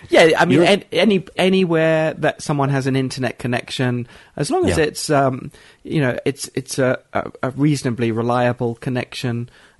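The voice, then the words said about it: British accent. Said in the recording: “you sound like you have a British accent. I think that's because you do”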